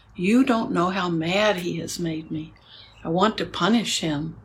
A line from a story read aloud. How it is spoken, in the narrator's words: I was very upset and cried to her